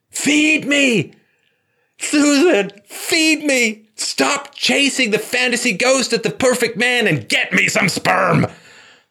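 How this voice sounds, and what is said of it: Yelling as a character voice. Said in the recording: “I'm yelling from your ovaries.”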